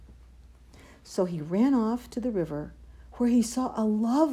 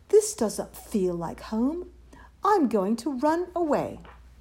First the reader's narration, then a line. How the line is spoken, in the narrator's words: he cried